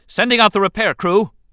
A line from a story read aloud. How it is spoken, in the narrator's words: Oli shouted